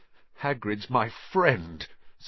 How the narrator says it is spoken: said Harry, his voice now shaking

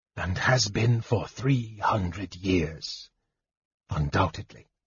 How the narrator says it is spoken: Raistlin whispered

